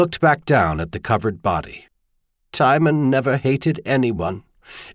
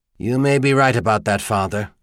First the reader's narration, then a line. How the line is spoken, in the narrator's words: Garvey said grimly